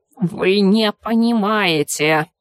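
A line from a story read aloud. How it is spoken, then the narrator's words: Creaky creature voice. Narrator (Russian): проскрипело одно из существ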